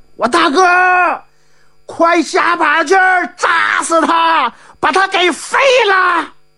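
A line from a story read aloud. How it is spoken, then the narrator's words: Crowd shouting together. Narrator (Chinese): 太行山的英雄们齐喊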